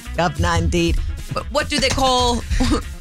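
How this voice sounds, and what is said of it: Poor put-on British accent. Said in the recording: “My accent's horrible.”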